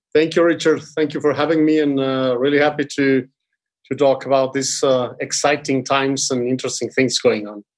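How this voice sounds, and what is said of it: Foreign accent in English. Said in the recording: “people can tell from your accent, you might have some international flair”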